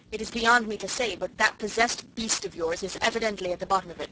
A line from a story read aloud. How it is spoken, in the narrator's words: said Susan